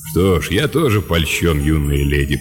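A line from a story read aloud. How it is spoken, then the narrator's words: Deep bass voice. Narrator (Russian): пробасил Лэб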